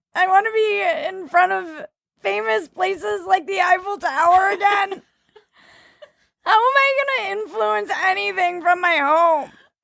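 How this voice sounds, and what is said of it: Imitates a distressed Instagram influencer. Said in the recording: “my impression of every Instagram influencer ... when they have their breakdowns”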